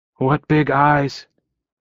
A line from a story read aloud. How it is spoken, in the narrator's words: I choked out